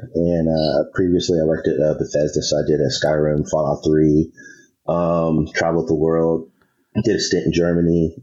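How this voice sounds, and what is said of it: Congested voice from a cold. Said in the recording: “I have a cold.”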